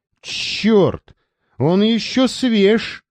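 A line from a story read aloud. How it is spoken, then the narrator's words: Flushed hunter shouting. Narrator (Russian): крикнул, раскрасневшийся охотник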